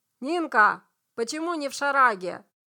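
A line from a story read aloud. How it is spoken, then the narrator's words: Mother shouting. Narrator (Russian): мать крикнула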